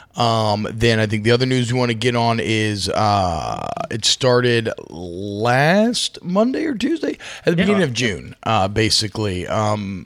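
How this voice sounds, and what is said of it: Tired, rough voice. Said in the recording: “If my voice sounds like shit, it's because I've stayed up till 1 a.m. the last two nights”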